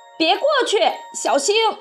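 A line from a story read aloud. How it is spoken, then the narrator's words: Shouting. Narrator (Chinese): 小胖墩喊道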